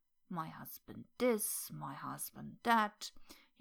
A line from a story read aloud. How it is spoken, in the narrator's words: grumbled